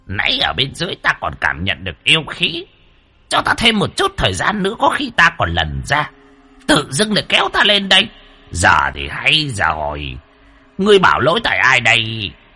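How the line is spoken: Old man, angry grumbling. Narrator (Vietnamese): Lão khuôn mặt tức giận cằn nhằn

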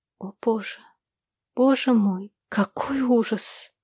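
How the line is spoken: Whisper. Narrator (Russian): Услышал он ее шепот

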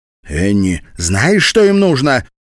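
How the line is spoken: Shouted out. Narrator (Russian): выкрикнула она

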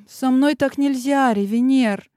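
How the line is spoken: Slightly sad. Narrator (Russian): немного грустным тоном ответила ему

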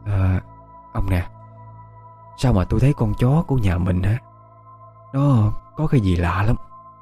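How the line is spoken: Woman whispering. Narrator (Vietnamese): Bà thì thào

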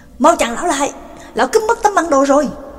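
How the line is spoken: Loud shout while chasing. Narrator (Vietnamese): McKin đuổi theo phía sau, hét lớn

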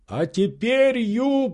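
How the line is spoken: Frantic excited shout. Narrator (Russian): закричал Легран вне себя от волнения

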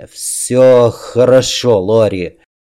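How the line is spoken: Dull muffled voice. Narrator (Russian): глухо сказал он

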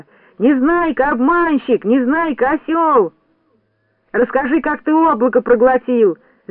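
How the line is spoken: Shouted. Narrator (Russian): закричал Сиропчик

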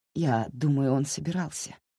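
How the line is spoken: Soft. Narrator (Russian): мягко сказала она

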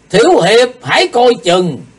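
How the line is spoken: Loud shout. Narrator (Vietnamese): diệu thủ thiên sư thét to

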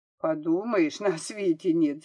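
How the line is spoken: Laughing. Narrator (Russian): засмеялась Машка

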